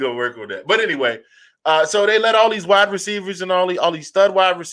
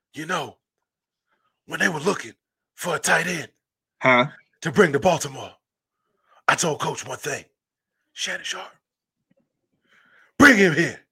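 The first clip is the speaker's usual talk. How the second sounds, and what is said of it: Bad imitation of another person's voice. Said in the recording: “my bad Ray Lewis impersonation ... That's a bad Ray Lewis impersonation”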